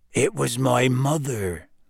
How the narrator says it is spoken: said Hagrid quietly

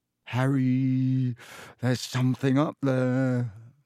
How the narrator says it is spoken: said Ron hoarsely

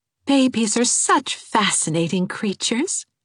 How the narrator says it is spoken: said Anne dreamily

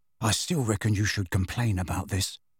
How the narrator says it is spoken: said Ron in a low voice

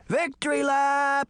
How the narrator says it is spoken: shouting

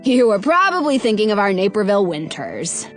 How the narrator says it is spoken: Dad says with a chuckle

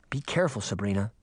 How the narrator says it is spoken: Daphne whispered

